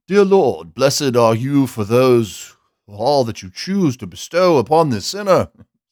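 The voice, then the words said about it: Put-on formal British accent. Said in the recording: “it just kind of begs the British accent.”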